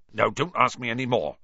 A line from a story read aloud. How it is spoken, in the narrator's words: said Hagrid gruffly